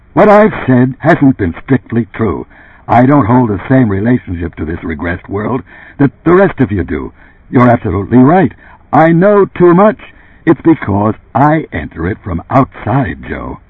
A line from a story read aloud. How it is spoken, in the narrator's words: he ceased speaking, chewed his lower lip savagely, then abruptly resumed